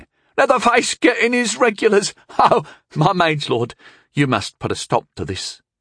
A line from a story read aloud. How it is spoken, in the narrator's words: said, still laughing